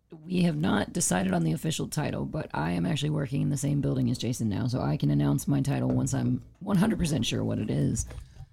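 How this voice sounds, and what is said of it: Strained, fading voice. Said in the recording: “I'm progressively losing my voice as we move on.”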